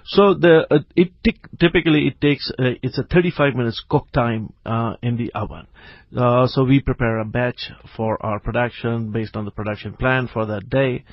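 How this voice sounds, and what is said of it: Strong South African accent. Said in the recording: “you sound like you have a very strong South African accent”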